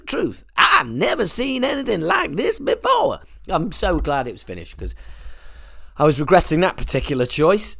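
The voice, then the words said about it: Exaggerated Deep South farmer accent. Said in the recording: “that's what Blackie Lawless would sound like if he was a farmer in the deep south ... my ridiculous accent”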